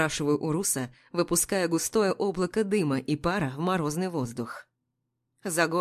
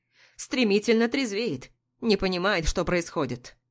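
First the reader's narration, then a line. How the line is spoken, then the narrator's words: Irritated answer. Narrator (Russian): раздраженно отвечает Рустам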